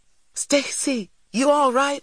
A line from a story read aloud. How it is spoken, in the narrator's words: I cried